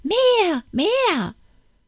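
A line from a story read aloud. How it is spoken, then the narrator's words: Repeated shouting. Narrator (German): Immer schrie es gleich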